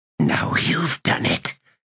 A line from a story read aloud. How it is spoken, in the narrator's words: hissed Quick Ben